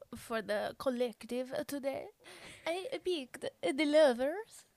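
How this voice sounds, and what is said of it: Odd Transylvanian-sounding put-on accent. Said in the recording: “I don't know what accent that is ... it gives me Transylvania vibes”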